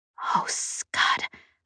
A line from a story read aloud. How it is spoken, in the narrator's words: I whispered